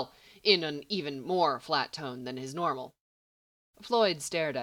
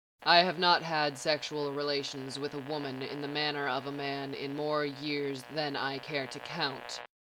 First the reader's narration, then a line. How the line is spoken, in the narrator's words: Corbin said flatly